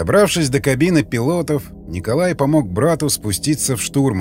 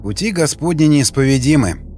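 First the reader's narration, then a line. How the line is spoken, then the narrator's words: Wry snort. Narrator (Russian): хмыкнул Николай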